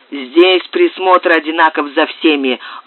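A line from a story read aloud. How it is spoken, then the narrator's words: Rough, curt. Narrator (Russian): грубо отрезал хозяин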